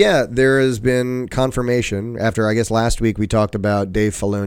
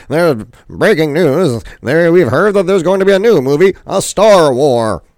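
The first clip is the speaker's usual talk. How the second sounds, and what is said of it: 1960s radio announcer voice. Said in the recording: “my greatest 1960s radio impersonator impression”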